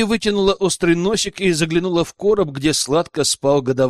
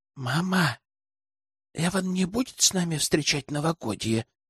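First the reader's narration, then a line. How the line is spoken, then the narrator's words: Soft whisper, young girl. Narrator (Russian): тихо прошептала старшая сестричка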